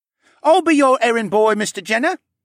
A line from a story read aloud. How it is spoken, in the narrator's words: Ryland piped up